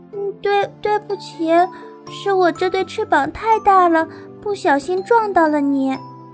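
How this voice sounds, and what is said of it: Quiet, bashful stammering voice. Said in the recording (Chinese): “安安红着脸小声地说”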